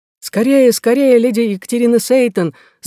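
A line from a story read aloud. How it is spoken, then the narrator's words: Shout. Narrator (Russian): закричал аббат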